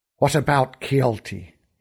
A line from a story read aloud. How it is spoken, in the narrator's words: He hissed